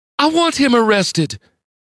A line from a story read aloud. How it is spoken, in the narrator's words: she yelled